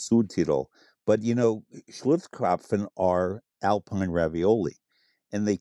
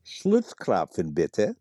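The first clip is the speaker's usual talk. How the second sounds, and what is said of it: Put-on romantic German accent. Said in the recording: “Say it again in your most romantic German accent.”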